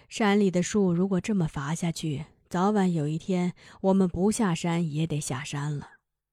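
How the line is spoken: Sighing. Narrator (Chinese): 叹息了一声，说

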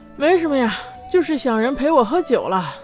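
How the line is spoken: Sighing. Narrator (Chinese): 边叹气边一口饮了，说道

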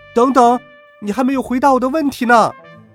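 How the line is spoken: Calling from behind. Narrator (Chinese): 翠花在我身后喊

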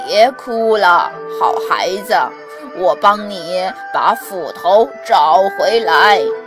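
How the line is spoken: Smiling, kindly old man. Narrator (Chinese): 老神仙 微笑地 说

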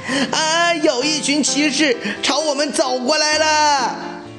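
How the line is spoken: Shouting in alarm. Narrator (Chinese): 小火花……大叫起来

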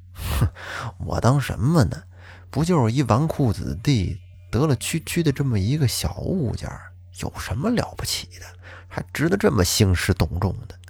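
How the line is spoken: Quiet mutter. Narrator (Chinese): 他在说这个话的时候呢，声音很小

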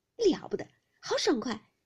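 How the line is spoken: Laughing. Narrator (Chinese): 晴雯笑道

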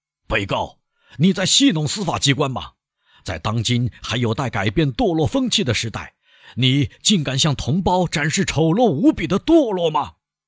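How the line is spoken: Judge shouting over uproar. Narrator (Chinese): 在喧闹声中，可以听到庭长的声音喊道

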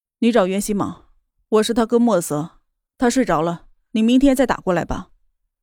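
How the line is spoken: Cold, displeased. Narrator (Chinese): 莫泽的心里生出了一股不舒服的情绪来，他的声音也冷淡了

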